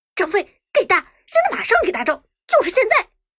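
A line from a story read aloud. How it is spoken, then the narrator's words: Urgent shouting. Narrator (Chinese): 剑客回头对身旁的马俊喊道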